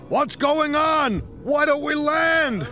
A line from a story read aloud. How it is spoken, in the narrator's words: shouted one man